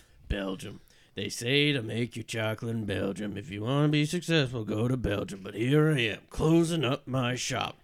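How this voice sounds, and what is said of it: Muttering in a vague accent. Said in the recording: “muttering to himself in a vague accent.”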